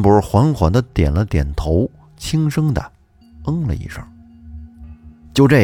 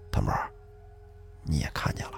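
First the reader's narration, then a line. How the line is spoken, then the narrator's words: Quiet voice. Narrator (Chinese): 康瑞也小声地说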